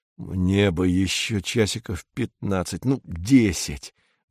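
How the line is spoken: Muttering. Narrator (Russian): бормочет Корнеев

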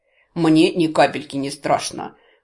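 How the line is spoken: Laughing loudly. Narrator (Russian): расхохотался полуэльф

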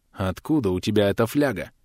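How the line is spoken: Icy voice. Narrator (Russian): ледяным голосом спросила она

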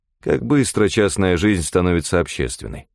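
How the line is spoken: Cold. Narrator (Russian): холодно сказал я

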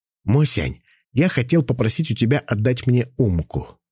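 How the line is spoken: Plain. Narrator (Russian): сказал я

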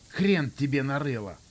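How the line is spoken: Angry yelling. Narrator (Russian): снова заорал

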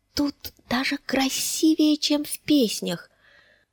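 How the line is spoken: Whispered. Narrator (Russian): прошептала она

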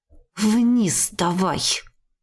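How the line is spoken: Wolfish hiss through teeth. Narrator (Russian): процедила волком

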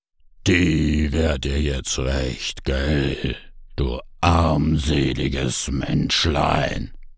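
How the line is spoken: Demonic chorus, growling and shrieking. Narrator (German): Tausend Stimmen zu einer verschmolzen, tief wie das Knurren eines Höllenhundes und kreischend wie brennende Hexen auf dem Scheiterhaufen

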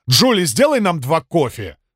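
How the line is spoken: Barked. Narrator (Russian): рявкнул собеседник

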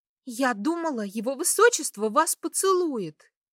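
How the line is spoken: Excited exclamation. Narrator (Russian): Возбужденно воскликнула она

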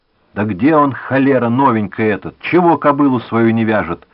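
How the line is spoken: Distant shout from barn. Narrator (Russian): кричал кто-то в сарае

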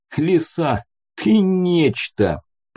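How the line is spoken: Moaned. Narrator (Russian): простонал

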